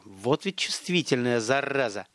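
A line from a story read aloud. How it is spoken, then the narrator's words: Grumbling. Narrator (Russian): проворчал Столяров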